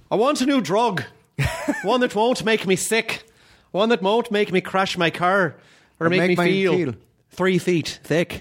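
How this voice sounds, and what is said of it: Put-on Irish accent, slight lisp. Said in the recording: “Your ... Irish ... Really beautiful ... I try to do the Brendan Gleeson thing where he does the little bit of a lisp ... It's just a little bit of a lisp”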